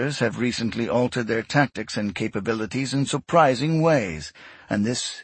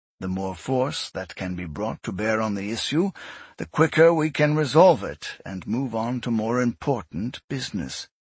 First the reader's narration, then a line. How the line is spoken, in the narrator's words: Yesun said calmly